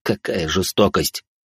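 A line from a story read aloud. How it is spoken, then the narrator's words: Skeptical mutter. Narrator (Russian): буркнул Жозе, явно не до конца веря моей истории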